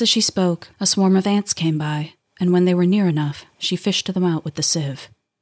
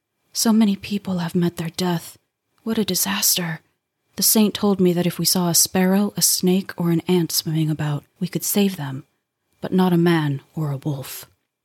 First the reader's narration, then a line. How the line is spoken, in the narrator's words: his mother kept on murmuring